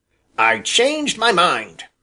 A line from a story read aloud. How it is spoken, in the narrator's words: he snapped